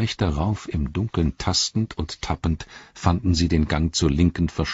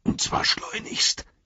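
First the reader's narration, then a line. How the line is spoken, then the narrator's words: Gasping. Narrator (German): japste Sam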